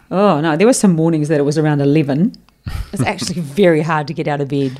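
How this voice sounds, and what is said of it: New Zealand accent. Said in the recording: “I am from New Zealand, obviously. You'd understand my accent.”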